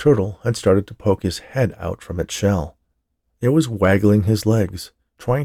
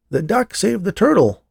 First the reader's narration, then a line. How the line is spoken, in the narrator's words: yelled one clever chap